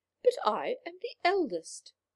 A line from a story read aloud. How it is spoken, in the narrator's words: exclaimed the third